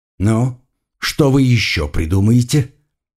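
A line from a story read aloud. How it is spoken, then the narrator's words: Muttered through teeth. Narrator (Russian): Процедил сквозь зубы оператор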